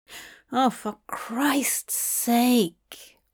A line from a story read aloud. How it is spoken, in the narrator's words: Hob mumbled